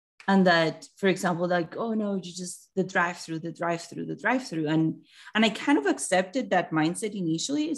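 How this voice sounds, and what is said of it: Colombian-accented English. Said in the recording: “you're obviously from your accent, you're not from here ... I'm from Colombia.”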